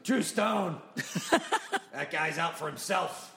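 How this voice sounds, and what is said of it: Poor imitation of another person's voice. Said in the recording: “That's the worst Johnny Stiff imitation ever... the words are right. The phrasing's off.”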